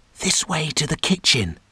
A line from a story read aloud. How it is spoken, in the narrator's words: whispered the gnome